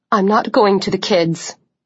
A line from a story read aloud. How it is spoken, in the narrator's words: she said coldly